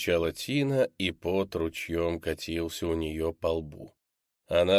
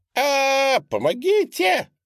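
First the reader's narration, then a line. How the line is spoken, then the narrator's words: Desperate scream. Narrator (Russian): отчаянно закричала Тина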